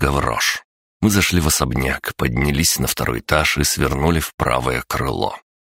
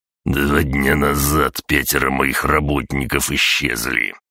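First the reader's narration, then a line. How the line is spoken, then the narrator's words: Through gritted teeth. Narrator (Russian): процедил Гаврош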